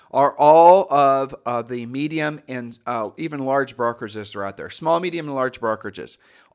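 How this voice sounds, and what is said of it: Slightly frayed, strained voice. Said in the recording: “if you hear my voice is a little bit frayed, it's because I've been on the phone constantly”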